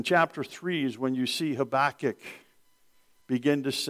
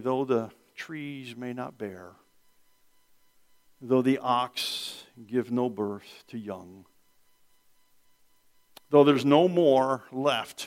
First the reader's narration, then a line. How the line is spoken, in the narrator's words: he says